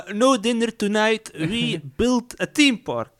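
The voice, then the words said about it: Impression with put-on Italian accent. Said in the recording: “What a good impression of Michael Eisner ... he sounded like Italian”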